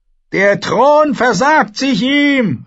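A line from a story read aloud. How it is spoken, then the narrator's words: Called out. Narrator (German): rief er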